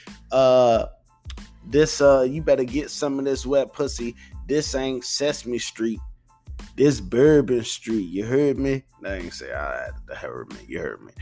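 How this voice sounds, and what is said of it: Poor put-on New Orleans accent. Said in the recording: “I'm sorry to anyone from New Orleans that's listening to this and I have a bad accent. I have a terrible way of fucking people's accents up.”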